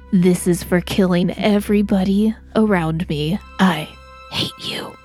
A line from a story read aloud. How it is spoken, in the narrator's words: As he's dying, I slowly whisper, I quietly whisper into his ear